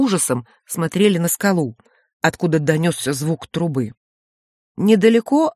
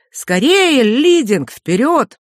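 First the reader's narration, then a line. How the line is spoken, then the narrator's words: Cheerful laugh, then sudden shout. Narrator (Russian): засмеялась веселым человеческим смехом и вдруг крикнула на чисто испанском языке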